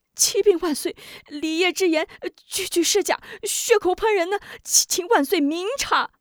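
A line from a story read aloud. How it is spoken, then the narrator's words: Frightened, hurried pleading. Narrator (Chinese): 贾怀吓得急忙跪道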